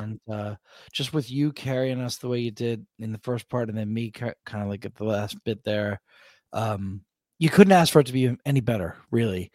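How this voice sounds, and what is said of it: Deep, sick-sounding voice. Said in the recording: “You went baritone for this statement. ... I've been a little sick. I'm sorry if I my voice isn't quite itself”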